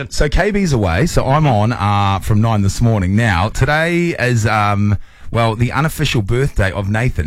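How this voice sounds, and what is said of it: New Zealand accent. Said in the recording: “this Kiwi accent”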